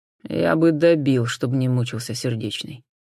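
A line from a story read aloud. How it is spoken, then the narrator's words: Gloomy admission. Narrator (Russian): мрачно признался сержант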